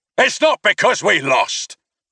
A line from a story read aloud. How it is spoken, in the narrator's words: Coach snapped